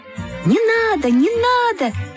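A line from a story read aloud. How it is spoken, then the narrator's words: Group shouting. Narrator (Russian): закричали все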